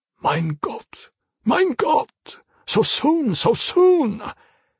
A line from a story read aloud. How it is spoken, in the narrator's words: groaning to himself